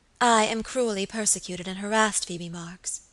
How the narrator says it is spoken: she said

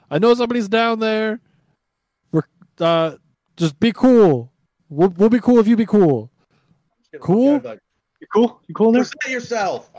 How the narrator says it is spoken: I'm gonna yell

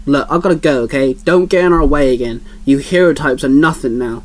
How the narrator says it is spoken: he grunted at Rogue

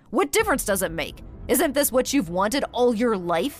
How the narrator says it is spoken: answered irritably

